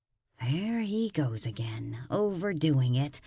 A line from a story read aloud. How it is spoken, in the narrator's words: mumbled